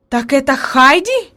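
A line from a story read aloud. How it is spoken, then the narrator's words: Exclamation. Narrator (Russian): воскликнула наконец она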